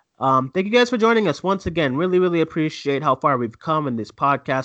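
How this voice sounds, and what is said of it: Tired, worn-out voice. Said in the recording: “My voice is done. I am tired, ready for bed.”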